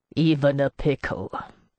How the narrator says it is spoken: Ossip added with a sour laugh

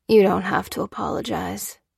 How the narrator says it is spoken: he replied calmly

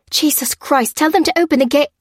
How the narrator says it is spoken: cried Rangecroft but his voice cut off suddenly

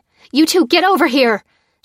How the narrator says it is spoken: she yelled at Fliss and Jack

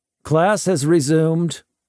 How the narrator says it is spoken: one of them called out

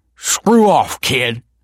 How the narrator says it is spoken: spat Tony

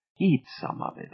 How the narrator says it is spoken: Aida whispered

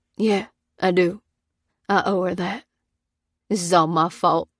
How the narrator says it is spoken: said Pete, choking on his words

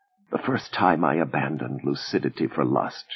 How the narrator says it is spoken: she whispered huskily

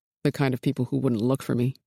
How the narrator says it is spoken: he said coldly

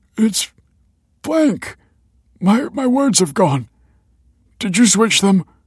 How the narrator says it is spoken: gasped Michael

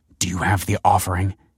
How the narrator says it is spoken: he hissed

